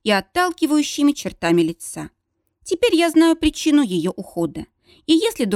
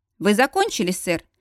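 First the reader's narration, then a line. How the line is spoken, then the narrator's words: Impassive question. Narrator (Russian): осведомляюсь я, бесстрастным тоном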